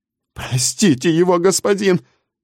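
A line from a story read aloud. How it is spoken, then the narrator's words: Old man pleading. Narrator (Russian): взмолился старый Зеер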